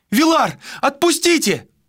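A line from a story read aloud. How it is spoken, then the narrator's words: Shout. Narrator (Russian): закричала она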